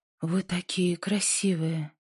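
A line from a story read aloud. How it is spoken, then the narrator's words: Smiling murmur. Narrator (Russian): пробормотала Инди, улыбнувшись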